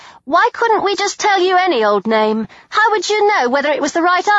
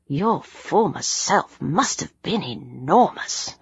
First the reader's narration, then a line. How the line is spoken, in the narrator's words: I muttered